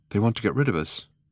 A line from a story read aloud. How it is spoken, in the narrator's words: said Trillian nervously